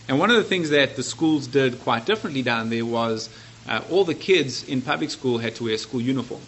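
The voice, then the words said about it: South African English accent. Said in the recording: “I have an accent. It's not from Dallas. I grew up in South Africa”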